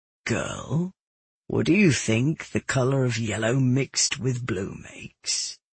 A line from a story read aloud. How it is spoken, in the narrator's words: my father asked slowly